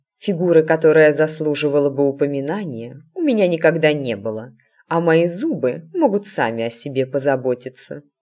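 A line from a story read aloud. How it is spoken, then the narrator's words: Snorted. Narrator (Russian): хмыкнула матушка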